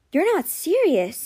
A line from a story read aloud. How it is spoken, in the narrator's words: breathed